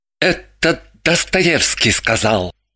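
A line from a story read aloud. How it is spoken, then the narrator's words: Uncertain interjection. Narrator (Russian): Неуверенно вставил Чех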